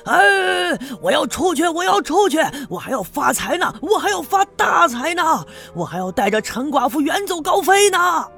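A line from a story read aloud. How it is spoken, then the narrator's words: Desperate shouting. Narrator (Chinese): 他喊的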